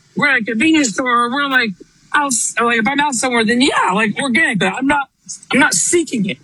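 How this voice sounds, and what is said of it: Hoarse, failing voice. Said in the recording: “My voice is like, I don't know. I woke up, my voice is going. ... My voice is going out for some reason.”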